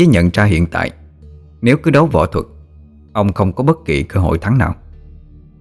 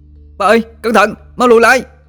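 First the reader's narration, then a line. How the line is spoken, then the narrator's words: Panicked shout. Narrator (Vietnamese): nó hốt hoảng la lên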